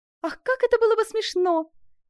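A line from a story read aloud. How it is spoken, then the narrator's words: Exclaiming with wild laughter. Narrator (Russian): воскликнула Катерина, мгновенно переходя от дикого ужаса к безумному веселью и покатываясь со смеху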